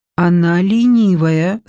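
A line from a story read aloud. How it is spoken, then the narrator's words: Plain. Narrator (Russian): сказала Маорамоцве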